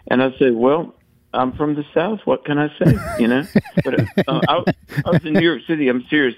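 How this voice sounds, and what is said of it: Southern American accent. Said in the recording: “I have a Southern accent ... you have a Southern accent”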